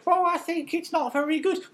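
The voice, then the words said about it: Mocking impression of co-host's voice. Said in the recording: “Was that my voice? ... that was what I was doing just then”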